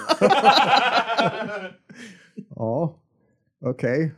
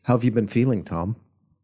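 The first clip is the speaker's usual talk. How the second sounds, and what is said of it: Put-on therapist voice. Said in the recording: “do the therapist voice.”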